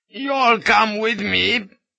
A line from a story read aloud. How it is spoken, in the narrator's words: he pleaded